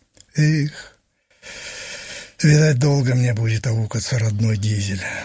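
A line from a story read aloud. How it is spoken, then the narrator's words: Sad musing. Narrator (Russian): грустно размышлял он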